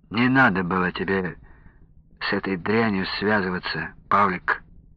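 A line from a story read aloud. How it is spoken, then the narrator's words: Sighing. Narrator (Russian): вздохнул Александр Сергеевич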